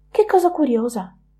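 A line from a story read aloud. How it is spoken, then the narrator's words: Exclamation. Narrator (Italian): esclamò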